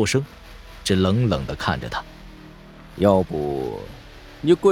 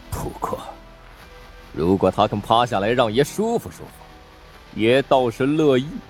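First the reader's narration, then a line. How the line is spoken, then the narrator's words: Through gritted teeth, laughing. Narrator (Chinese): 有个兵士磨着牙说道，忽又笑了声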